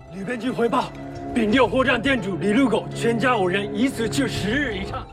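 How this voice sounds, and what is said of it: Obvious Japanese accent in Chinese. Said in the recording (Chinese): “这里来通报消息的通传官带着很明显的日本口音”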